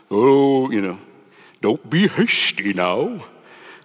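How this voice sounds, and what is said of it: Impression of an Ent from Lord of the Rings. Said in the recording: “That's my Ent impression. ... Ents from the Lord of the Rings, you know, the big tree people”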